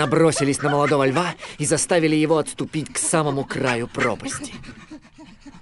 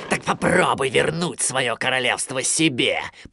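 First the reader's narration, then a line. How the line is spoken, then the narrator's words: Growled. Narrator (Russian): прорычал он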